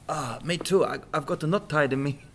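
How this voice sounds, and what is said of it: Character voice with a changed accent. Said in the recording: “Oh, you've changed accent.”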